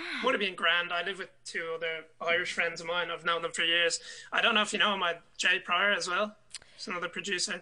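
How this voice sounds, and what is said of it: Irish accent. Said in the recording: “I love your accent. It's so contagious. ... It's brilliant. Such a lovely accent.”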